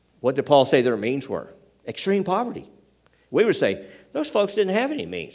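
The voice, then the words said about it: Southern US Tennessee accent. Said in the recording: “In case you're wondering about my accent, Tennessee... he sounded like he was from down south”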